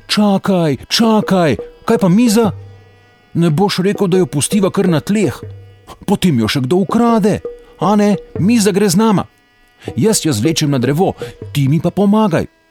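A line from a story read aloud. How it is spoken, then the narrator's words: Younger one calling out. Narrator (Slovenian): mlajši zaklical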